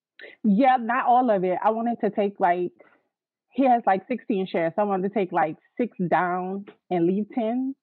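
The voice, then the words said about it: New Orleans accent. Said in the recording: “Are you from New Orleans? ... I could tell by the accent.”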